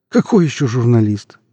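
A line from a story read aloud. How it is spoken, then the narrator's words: Joyless chuckle. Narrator (Russian): невесело хохотнул Иван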